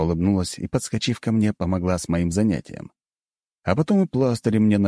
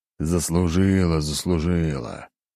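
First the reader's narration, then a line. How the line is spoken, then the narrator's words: Sigh, silent thought. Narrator (Russian): вздохнул ответил мысленно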